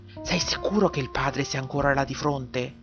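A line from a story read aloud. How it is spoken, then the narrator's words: Whispered. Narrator (Italian): bisbigliò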